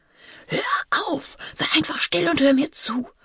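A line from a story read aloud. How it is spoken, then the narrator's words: Whispered into ear. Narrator (German): flüsterte Marley ihr ins Ohr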